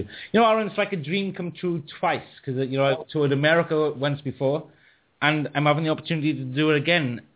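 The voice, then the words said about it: Welsh accent. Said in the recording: “that amazing Welsh accent”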